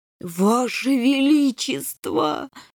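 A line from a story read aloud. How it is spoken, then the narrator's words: Groan. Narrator (Russian): застонал генерал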